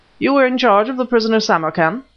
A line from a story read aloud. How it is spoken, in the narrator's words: began Smith harshly